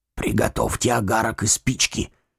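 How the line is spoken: Whispered. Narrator (Russian): шепнул следователь

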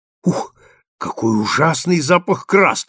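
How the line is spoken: Exclamation. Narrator (Russian): воскликнул инспектор

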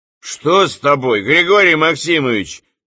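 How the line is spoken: Strange, unnatural voice. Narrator (Russian): спросил администратор каким-то не своим голосом

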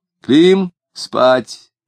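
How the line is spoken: Stern shout from afar. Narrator (Russian): строго крикнула Вера Петровна из окна

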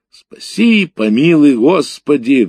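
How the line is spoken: Old man roaring. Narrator (Russian): взревел дедок

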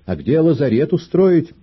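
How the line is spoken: Shouting. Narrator (Russian): Председатель кричал

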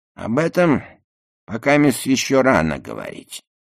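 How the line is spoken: Calm. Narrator (Russian): ответил Нед так же спокойно, как Атис

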